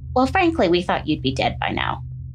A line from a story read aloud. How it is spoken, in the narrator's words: stated calmly, as if they were discussing the weather